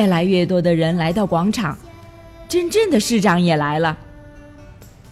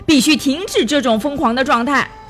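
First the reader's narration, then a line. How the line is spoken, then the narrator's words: Angry woman shouting. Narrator (Chinese): 一个愤怒的女人大声疾呼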